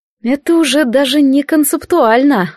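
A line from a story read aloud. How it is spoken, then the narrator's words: Breathed out. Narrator (Russian): выдохнула я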